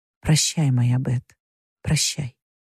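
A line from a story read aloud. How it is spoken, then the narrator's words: Quiet whisper. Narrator (Russian): тихо прошептала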